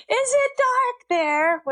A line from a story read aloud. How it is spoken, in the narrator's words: yelled into the phone